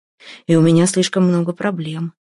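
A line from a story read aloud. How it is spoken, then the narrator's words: Sighing. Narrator (Russian): вздохнул Самохин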